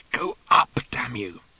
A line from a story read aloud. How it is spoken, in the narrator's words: Ford muttered hopelessly to Colin